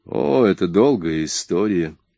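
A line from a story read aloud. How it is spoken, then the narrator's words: Tired. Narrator (Russian): устало произнес Джордж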